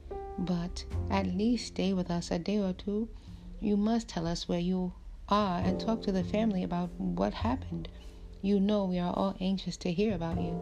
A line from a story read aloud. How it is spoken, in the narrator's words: Finally, I gathered all my strength and begged